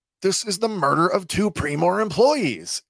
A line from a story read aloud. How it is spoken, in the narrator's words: reaching the end of his rope, Karn shouts at them